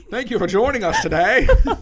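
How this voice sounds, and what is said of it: Put-on mid-Atlantic accent. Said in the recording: “mid-Atlantic accent?”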